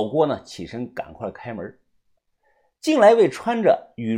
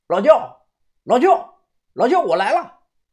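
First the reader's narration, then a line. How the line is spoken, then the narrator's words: Shouting from outside. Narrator (Chinese): 屋外传来了喊声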